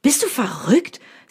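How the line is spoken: Angry. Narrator (German): sagt dieser wütend

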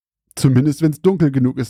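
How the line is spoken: Laughing. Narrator (German): lachte Margaret

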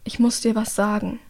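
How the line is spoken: Quiet speech. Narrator (German): sagt leise

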